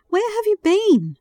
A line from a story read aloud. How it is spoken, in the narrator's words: Jim exclaimed